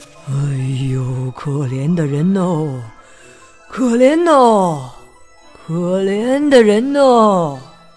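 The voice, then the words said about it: Quiet, hushed pitying voice. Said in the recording (Chinese): “小声地说”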